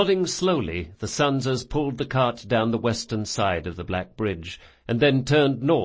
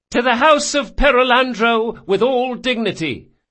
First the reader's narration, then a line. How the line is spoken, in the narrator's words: Gritting his teeth, he called out